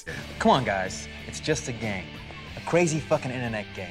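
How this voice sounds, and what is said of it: Weak put-on Boston American accent. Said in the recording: “You're American now ... He's trying so hard. It veers into a weird Boston accent ... he starts sounding like a Wahlberg sometimes ... It does sound a little Wahlbergian ... It's not a good accent.”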